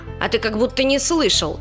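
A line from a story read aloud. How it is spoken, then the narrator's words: Snorting. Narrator (Russian): фыркнула желтая медведица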